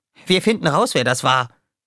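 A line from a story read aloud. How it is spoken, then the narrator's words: Called out. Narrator (German): rief Roughshot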